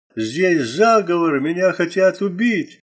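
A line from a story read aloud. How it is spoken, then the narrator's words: Loud anguished scream. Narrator (Russian): Гафолия громко и источно закричала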